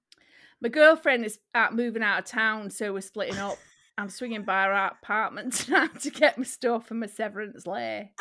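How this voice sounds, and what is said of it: Northern accent. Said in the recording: “Drop the accent. Do it northern.”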